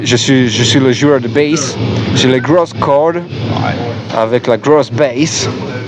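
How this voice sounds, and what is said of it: Slight Acadian French accent. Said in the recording (French): “Et vous avez un léger accent. ... on est acadien. On vient de l'Acadie.”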